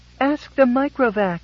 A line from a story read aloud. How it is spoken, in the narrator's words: wailed Geraldette the First